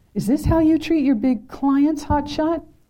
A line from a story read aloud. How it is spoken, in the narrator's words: yelled